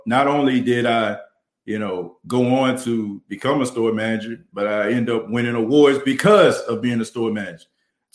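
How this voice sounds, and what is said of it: New Orleans Southern accent. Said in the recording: “my New Orleans accent or my Southern dialect”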